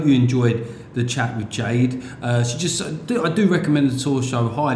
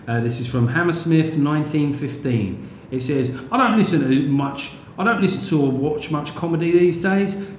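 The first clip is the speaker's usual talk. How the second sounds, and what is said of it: Put-on West London accent. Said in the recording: “I'm going to give it a bit of a London accent here, West London.”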